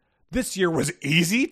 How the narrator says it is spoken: Tookie sputtered in disbelief

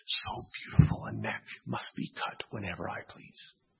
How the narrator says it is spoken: Caligula ... whispering

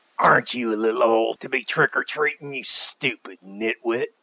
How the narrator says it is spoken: he snarled

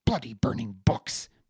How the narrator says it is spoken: Maeve spat

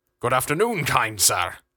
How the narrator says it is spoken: the fat one bellowed

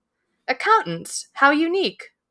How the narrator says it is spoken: Buffy said brightly

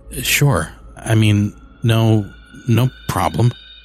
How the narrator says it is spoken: I stammered

